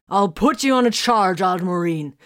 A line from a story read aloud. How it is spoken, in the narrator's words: the Space Wolf snarled